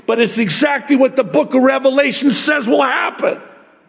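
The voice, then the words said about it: Raised, loud voice. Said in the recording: “forgive me for raising my voice”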